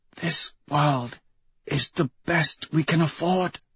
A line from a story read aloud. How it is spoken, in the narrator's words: Octavia whispers